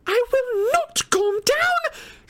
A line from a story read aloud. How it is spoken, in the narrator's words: she screamed